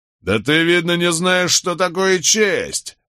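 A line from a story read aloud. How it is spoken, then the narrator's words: Burly soldier barking. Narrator (Russian): Рявкнул здоровенный солдат, судя по всему, зачинщик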